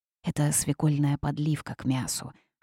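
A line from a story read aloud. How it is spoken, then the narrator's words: Whispered answer. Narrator (Russian): шепотом ответила Верховная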